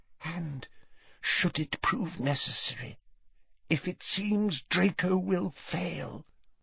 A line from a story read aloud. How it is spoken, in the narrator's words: whispered Narcissa